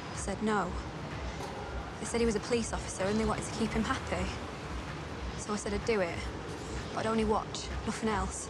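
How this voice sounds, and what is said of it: Manchester accent. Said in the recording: “Where's that accent from? ... Hyde ... Manchester girl.”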